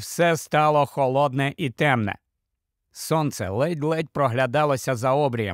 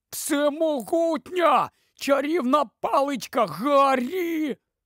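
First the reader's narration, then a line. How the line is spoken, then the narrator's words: Groaning in despair. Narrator (Ukrainian): Рон аж стогнав від відчаю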